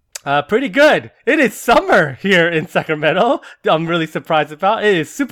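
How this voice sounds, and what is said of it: Usual voice. Nothing is said of it.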